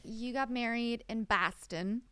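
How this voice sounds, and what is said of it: Good put-on Boston accent. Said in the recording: “That's a really good Boston accent.”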